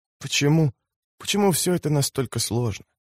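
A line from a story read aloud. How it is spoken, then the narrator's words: Whisper. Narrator (Russian): прошептала она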